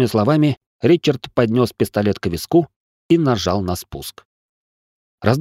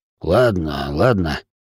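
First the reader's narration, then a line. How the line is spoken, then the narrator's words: Irritated grumble. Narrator (Russian): раздраженно буркнул инвалид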